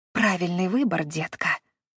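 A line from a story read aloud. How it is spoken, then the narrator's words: Mutter. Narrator (Russian): пробормотала она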